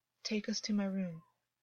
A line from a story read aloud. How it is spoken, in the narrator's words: August said quietly